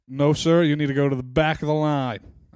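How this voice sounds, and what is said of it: Put-on American accent, military tone. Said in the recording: “I was going to do an American accent, but then I bailed last minute ... That was good ... That was not bad, to be fair ... I felt a bit military there.”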